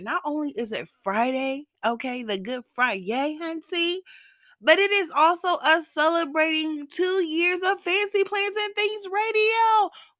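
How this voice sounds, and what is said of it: Congested, odd-sounding voice. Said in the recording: “I know I sound a little funny. ... I sound a little weird. My voice is going to be going in and out, changing up a little bit. I have the worst congestion ever.”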